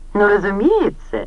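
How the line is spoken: Ringing laughter. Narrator (Russian): Синтия звонко расхохоталась

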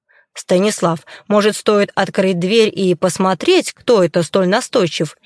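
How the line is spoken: Snide question. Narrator (Russian): Ехидно поинтересовалась Ирма Генриховна

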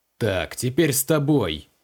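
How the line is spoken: Menacing promise. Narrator (Russian): грозно пообещал Креол

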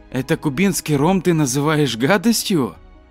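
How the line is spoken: Exclaiming. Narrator (Russian): Лев воскликнул

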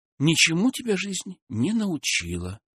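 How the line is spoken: Sighing. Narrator (Russian): вздохнула Ольга

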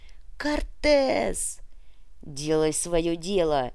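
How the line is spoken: Mercenary's growled reply. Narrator (Russian): прорычал в ответ наемник

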